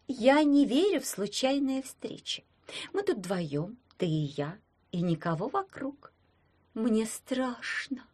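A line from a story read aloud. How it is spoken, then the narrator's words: Cooing. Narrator (Russian): проворковала Верка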